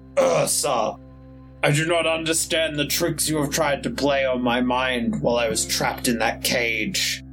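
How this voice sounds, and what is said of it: Deep character voice. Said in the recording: “in his deep voice”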